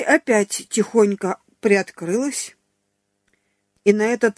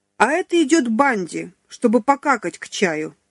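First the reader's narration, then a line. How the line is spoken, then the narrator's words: Loud laughter. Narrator (Russian): захохотала Маруся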